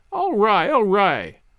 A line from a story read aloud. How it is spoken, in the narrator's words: laughed Sally